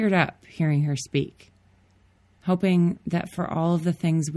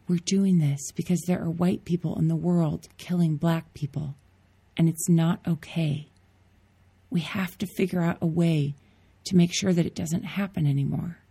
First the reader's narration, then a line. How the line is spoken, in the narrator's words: Grace whisper back